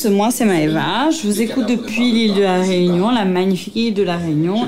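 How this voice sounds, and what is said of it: Pretty regional French accent. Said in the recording (French): “Merci ... et ton joli accent”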